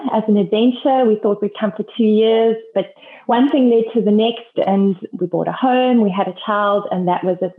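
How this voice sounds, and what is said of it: South African accent. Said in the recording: “a South African accent than I have”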